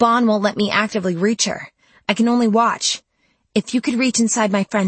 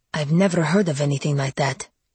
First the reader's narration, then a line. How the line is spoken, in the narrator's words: murmured Mark